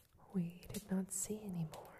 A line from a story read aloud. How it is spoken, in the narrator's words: said the sparrows